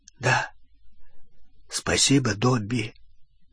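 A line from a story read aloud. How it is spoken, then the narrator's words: Hoarse after throat-clearing. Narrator (Russian): Рон прокашлялся и хрипло сказал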